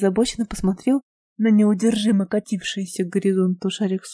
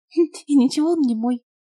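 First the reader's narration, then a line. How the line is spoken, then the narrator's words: Girl's giggle. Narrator (Russian): хихикнула девушка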